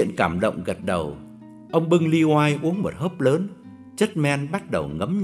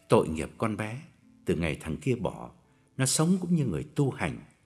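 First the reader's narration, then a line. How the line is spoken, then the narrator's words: Lowered voice. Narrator (Vietnamese): Ông hạ giọng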